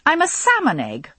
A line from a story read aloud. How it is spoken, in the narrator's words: I exclaimed